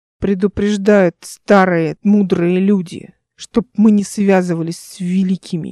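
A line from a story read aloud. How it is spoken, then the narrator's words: Venomous hiss. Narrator (Russian): ядовитым тоном прошипел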